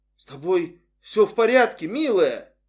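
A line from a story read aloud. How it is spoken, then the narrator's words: Hoarse, strained. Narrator (Russian): Нэнси хрипло выдавила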